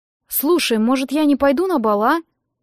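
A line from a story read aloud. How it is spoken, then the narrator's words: Confused, bewildered question. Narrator (Russian): Растерянно спросила я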